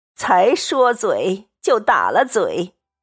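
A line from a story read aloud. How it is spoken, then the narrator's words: Laughing. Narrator (Chinese): 刘姥姥自己也笑了，说道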